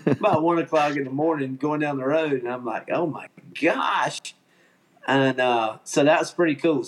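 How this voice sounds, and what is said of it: Southern American accent. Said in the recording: “that old uh, southern accent I got”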